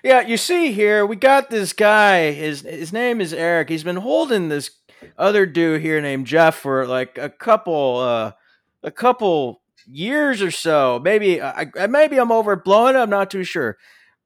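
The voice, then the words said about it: Impression of Joe Bob Briggs. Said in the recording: “that is my impression of Joe Bob Briggs”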